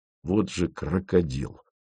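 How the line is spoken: Muttered. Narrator (Russian): пробормотал Фомин

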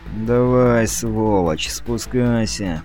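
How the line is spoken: Through teeth, falsely friendly. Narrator (Russian): процедил он сквозь зубы, приветливо улыбаясь

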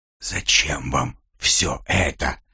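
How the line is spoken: Wheezed. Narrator (Russian): просипел

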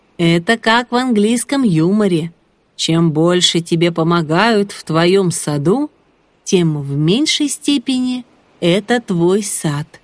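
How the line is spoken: Cheerful deep bass. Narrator (Russian): Володя весело пробасил

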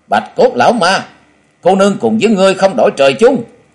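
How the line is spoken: Loud shout. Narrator (Vietnamese): Nàng hét lớn

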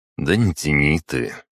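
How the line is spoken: Sighed. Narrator (Russian): вздохнул я

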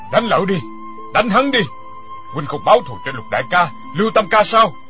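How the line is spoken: Loud laughing shout. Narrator (Vietnamese): Quyết Đau Tăng ha ha cười lớn, kêu lên

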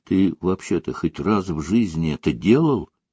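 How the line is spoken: Quiet question. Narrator (Russian): тихо спросил Митя

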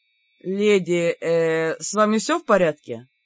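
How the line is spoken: Very uncertain question. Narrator (Russian): очень неуверенно спросил кто-то из чужаков

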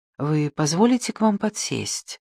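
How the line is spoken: Ingratiating middle-aged woman. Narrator (Russian): вкрадчиво спросила женщина лет 40

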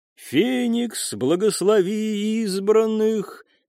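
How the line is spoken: Chanted. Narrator (Russian): нараспев произнесла она

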